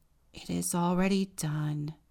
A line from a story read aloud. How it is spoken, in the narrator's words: the wren sighed